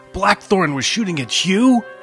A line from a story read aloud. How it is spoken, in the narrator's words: Sasha howled